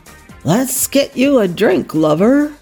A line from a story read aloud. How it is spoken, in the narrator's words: Wesley rasped loudly